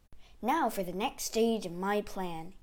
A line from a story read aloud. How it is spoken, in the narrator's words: he muttered